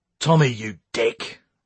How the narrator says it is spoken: barked Lee

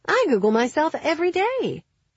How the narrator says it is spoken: she'd cried

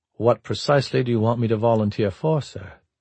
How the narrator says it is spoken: Prescott asked in a level voice

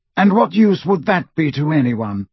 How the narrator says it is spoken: said Dumbledore coldly

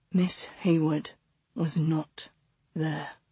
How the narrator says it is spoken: August said so quietly that Clara barely heard him

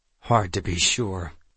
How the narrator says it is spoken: Stan said tightly

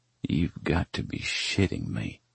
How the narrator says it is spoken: I mumble under my breath

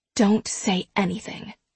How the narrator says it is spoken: she whispers

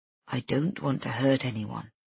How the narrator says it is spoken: he says quietly

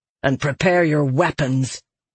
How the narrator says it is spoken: she growled

